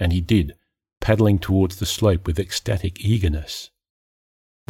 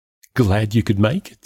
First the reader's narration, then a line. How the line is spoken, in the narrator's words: she said, giggling